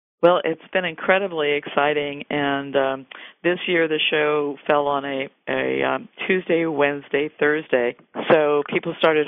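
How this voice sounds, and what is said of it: Worn, deteriorating voice. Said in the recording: “I sound a little bit like Kathy Bates. My voice is deteriorating quickly”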